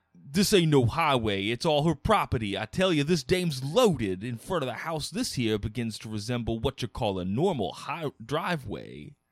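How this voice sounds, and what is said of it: Cartoon New York cabbie voice, slightly Southern. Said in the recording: “this like cartoon New Yorker guy ... A little bit of like Southern gentleman in there. ... Just like a shade. Like I feel like you're a New York cab driver who enjoys a mint julep every now and again.”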